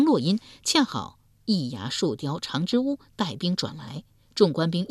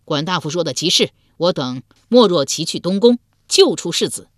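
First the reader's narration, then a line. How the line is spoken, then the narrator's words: Loud reply. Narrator (Chinese): 鲍叔牙之子鲍勇高声应道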